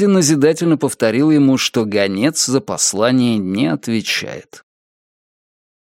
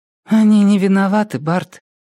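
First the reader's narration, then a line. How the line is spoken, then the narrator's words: Sad sigh. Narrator (Russian): вздохнула Мэри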